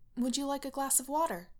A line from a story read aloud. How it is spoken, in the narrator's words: she offers stiffly